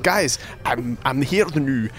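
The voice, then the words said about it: Weird Scottish-German accent imitating Susie Wolff. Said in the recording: “she was doing a weird Scottish-German accent.”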